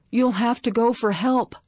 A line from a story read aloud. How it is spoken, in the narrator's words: Grandpa gasped